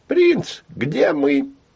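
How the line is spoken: Squeaky cartoonish voice. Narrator (Russian): пискнул мультяшный голос

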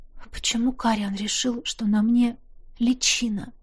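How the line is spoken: Barely audible, anxious whisper. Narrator (Russian): Едва слышно прошептала, боясь, что что-то неправильно поняла

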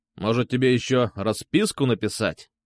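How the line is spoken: Angry question. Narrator (Russian): зло спросил он

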